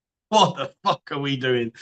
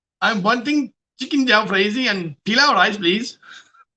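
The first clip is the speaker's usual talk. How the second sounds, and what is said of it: Put-on Indian accent. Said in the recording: “An Indian accent.”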